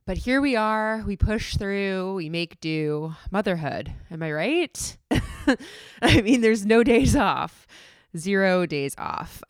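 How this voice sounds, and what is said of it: Voice sounds a little sick. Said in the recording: “I don't know if you can hear it in my voice, but I'm a little bit under the weather”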